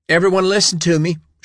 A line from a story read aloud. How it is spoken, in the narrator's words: she shouted